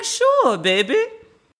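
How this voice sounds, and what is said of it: Poor put-on New Orleans accent. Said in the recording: “That's my version of a New Orleans accent. I know it was terrible”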